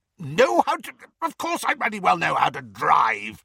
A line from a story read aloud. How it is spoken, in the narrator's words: spluttered Uncle Vernon